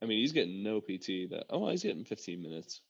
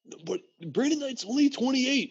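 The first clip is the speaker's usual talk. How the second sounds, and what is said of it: Imitates another person's voice. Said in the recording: “In my best KOC voice.”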